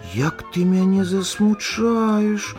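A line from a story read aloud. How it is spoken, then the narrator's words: Sighing. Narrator (Belarusian): уздыхнула лыжка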